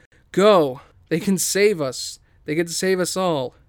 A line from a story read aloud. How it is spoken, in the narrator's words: He yells to our heroes